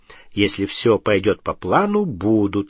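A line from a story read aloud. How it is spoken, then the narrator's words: Calm. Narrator (Russian): спокойно ответил Гарри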